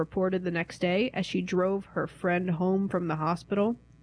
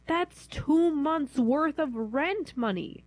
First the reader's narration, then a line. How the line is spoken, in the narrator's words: wailed